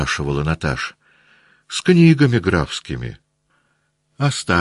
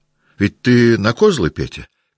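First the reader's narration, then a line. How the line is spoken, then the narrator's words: Shouting. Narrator (Russian): кричала Наташа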